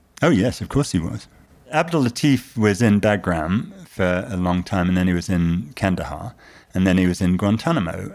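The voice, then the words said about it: British accent. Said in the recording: “notwithstanding my patent British accent, I'm American.”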